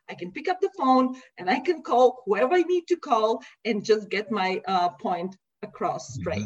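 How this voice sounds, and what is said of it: Speaks English with an accent. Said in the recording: “imagine me with an accent ... my accent”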